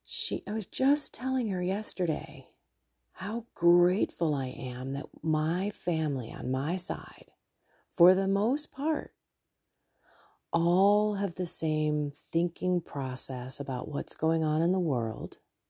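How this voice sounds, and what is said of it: Whispering. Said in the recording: “trying to whisper.”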